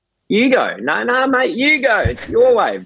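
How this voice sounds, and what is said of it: Put-on broad Australian accent. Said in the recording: “full-blown Australian dudes, like ochre accent.”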